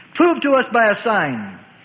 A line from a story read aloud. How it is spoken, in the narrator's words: They challenged and taunted